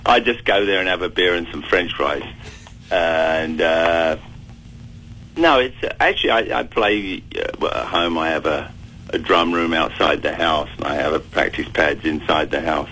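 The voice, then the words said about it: British, South London accent. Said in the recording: “your British accent ... I actually come from South London”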